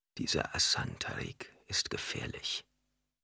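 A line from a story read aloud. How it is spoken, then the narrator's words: Preacher's hoarse whisper. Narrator (German): In einem heiseren Flüsterton sagte der Prediger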